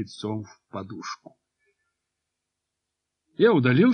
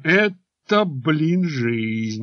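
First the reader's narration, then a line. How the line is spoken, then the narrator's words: Delighted exclamation. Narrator (Russian): лысый Кашинцев воскликнул с восторгом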